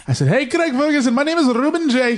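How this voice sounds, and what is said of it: Bad put-on Scottish accent. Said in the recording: “That's a terrible accent... Scottish or 7-Eleven?... Pakistani... That was terrible.”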